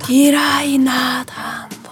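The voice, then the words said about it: Rapt whisper. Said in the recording (Hungarian): “átszellemülten suttogta”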